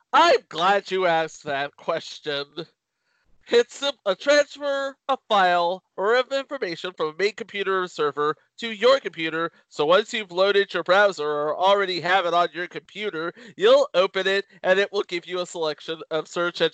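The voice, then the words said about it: Imitates another person's voice. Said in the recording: “my Peter impersonation ... I just got totally method”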